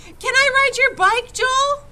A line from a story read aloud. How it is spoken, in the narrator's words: Tony begged